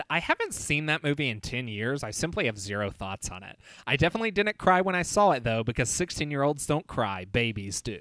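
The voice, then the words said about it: Imitates another person's voice. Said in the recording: “It's a pretty good Chad impression.”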